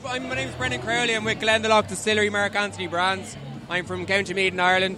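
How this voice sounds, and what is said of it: Irish accent. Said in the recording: “this is my Irish persona ... the accent's similar. The accent is similar.”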